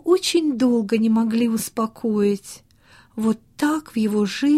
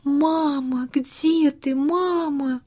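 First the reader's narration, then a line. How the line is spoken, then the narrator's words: Tearful whisper, child. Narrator (Russian): Он плакал и шептал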